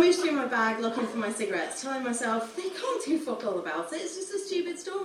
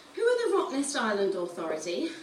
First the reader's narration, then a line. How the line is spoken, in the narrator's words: she asked